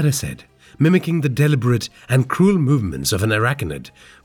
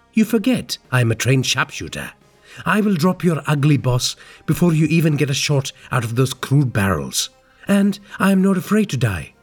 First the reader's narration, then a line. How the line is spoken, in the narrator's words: Prasad said